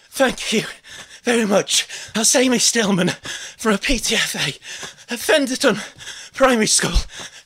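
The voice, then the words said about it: Out of breath. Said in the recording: “I'm out of breath... I'm too out of breath to introduce it”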